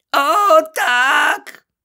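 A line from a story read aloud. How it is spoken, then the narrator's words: Moaned. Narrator (Ukrainian): Крічер застогнав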